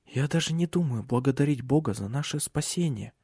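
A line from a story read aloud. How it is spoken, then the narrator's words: Whisper. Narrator (Russian): прошептала она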